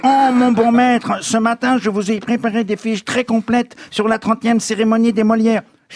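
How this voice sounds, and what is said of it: Exaggerated Coulommiers accent, cleft-lip speech. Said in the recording (French): “le pittoresque accent de Coulommiers, aggravé cet accent par un bec de lièvre mal opéré”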